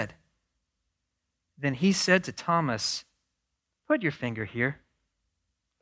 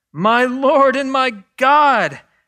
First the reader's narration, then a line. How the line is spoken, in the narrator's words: Thomas exclaimed